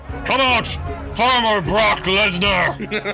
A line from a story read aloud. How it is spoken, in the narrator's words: he bellows